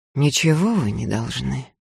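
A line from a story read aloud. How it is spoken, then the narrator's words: Weary. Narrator (Russian): устало сказал Закатов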